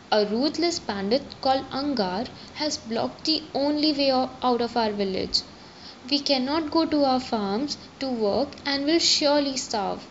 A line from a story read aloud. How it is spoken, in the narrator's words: he said